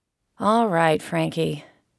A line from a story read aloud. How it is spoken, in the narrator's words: Vince began in a patronizing tone